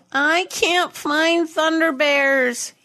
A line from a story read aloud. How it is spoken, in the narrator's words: he whined